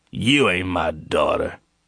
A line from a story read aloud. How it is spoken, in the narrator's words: Jordan sneered